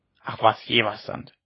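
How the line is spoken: Old woman's grumble. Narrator (German): brummte die Alte

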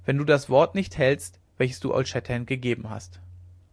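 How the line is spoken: Proud and calm. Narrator (German): antwortete Winnetou stolz und ruhig

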